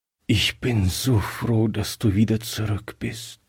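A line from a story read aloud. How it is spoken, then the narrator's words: Weak voice. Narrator (German): sagte er schwach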